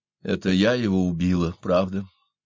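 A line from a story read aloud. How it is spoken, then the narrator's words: Calm. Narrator (Russian): спокойно проговорила она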